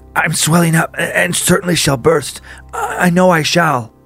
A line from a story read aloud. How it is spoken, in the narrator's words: in a low, choking voice, Esther exclaimed